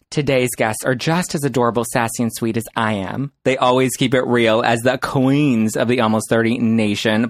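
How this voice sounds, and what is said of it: Deep, sultry radio voice. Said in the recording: “you really drop into your voice ... You've got an amazing radio voice ... People tell me I have a sexy radio ... sultry voice”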